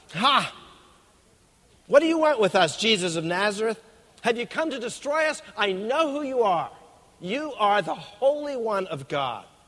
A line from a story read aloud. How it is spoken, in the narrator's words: this man with booming loud voice shouted out